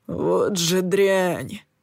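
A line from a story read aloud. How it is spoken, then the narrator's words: Disgusted snort. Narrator (Russian): фыркнул Сэм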